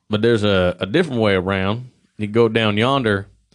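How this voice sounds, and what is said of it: Put-on southern accent. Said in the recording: “did he have a southern accent? ... In the story, he does.”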